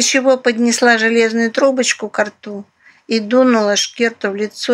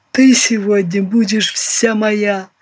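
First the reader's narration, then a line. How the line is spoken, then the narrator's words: Deep bass voice. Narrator (Russian): пробасил новоиспеченный капитан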